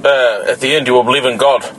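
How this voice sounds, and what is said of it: Put-on Indian accent. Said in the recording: “That was actually a pretty good accent, right? That wasn't bad. ... When you said God, it kind of sounded Indian. ... It actually sounded like what he sounded like. ... That was pretty good, you know, but like the fake way.”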